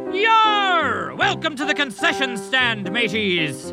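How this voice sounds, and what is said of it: Exaggerated pirate voice. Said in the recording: “annoying pirate talk ... Why were you talking like a pirate?”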